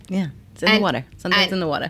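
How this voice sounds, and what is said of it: Long Island accent. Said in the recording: “Long Island... Has an accent”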